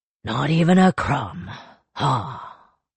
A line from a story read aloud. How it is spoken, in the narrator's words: Akudan sighed